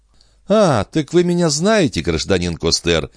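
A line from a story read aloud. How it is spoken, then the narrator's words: Laughing question, young woman. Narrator (Russian): смеясь в свою очередь спросила молодая женщина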